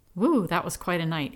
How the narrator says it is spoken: he exclaimed

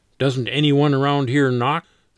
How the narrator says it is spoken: Len grumbled

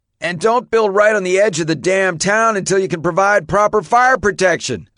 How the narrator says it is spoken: a firefighter called out

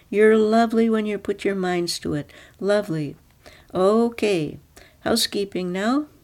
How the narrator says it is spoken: Natalie cried

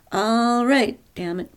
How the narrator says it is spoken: Pearl shouted over the laughing

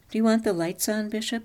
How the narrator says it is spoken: she said

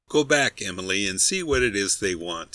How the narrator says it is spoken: says one

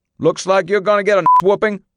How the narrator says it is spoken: yelled

